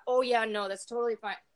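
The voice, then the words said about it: Put-on Minnesotan accent. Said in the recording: “There went my Minnesotan accent.”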